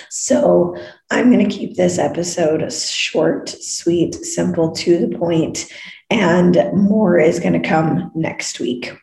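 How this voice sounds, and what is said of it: Hoarse, worn-out voice. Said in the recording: “you can totally hear that my voice is shot ... when I have my voice back”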